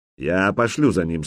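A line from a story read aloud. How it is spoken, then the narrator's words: Plain. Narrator (Russian): сказал он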